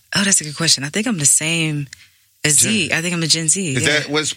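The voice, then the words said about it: Slight Caribbean accent. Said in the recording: “I'm a little bit Caribbean ... I can hear it in your voice.”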